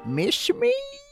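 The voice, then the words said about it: Freddy Krueger impression. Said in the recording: “my Freddy impression? It's really dead on... Robert Englund? Wow.”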